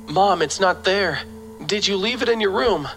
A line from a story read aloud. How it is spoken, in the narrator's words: I say as I run back, my voice trembling